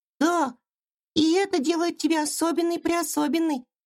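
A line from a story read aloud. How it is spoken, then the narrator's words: Tiny squeaky voice. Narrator (Russian): пропищала мышка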